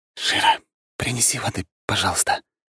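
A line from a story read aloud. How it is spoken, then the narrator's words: Whisper. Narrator (Russian): прошептал я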